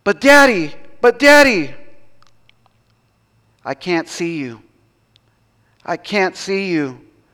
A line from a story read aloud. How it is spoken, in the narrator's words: the boy cried out